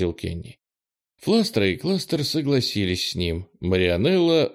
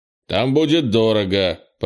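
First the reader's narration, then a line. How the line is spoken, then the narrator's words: Grumble. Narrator (Russian): проворчал Крис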